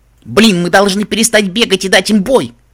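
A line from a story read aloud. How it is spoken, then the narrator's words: Shouting over loud noise. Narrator (Russian): прокричала я сквозь рев пожара и звуки битвы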